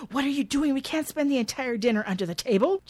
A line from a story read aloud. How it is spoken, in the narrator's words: hisses